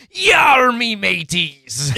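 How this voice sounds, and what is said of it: Exaggerated pirate accent. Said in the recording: “an exaggerated pirate's accent, which is actually really funny”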